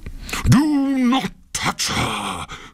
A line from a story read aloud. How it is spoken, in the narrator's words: cried Pluto in a terrible voice